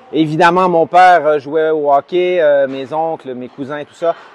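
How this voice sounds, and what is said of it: Canadian French accent. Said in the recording (French): “vous l'avez sûrement entendu avec dans mon accent, mais je suis canadien.”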